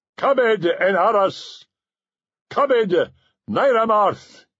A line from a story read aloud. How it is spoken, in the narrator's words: he cried